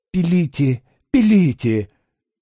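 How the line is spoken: Faltering babble. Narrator (Russian): пролепетал Паниковский

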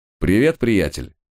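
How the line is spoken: Cheerful greeting. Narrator (Russian): бодро поздоровался я

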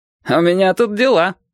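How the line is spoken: Objecting, then laughing. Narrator (Russian): возразил Петька и засмеялся

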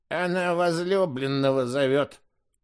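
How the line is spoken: Mutter. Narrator (Russian): буркнула Кумиянка

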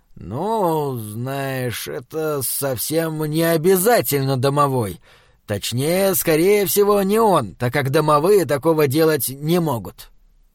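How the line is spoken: Demon, slow after pause. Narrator (Russian): Демон немного помолчал и медленно произнес

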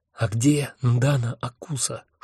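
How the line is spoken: Whispered question. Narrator (Russian): шепотом спросил я Хехельфа

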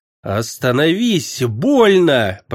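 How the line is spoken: Girl moaning. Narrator (Russian): простонала девушка

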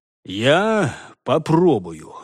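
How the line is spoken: Strained, forced out. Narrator (Russian): выдавил Хольгер

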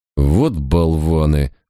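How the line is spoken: Grumbling. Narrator (Russian): буркнул Барак

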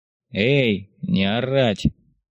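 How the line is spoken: Lazy call. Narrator (Russian): Лениво откликнулся один из серошинельных конвоиров

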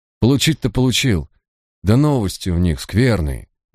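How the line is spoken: Sighing. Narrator (Russian): вздохнул Ликон

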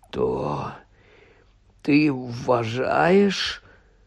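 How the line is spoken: Hoarse voice. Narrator (Ukrainian): хриплим голосом мовив Гаррі

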